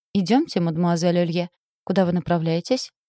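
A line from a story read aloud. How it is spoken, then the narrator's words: Unearthly voice. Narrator (Russian): не отставал Горбун с неземным голосом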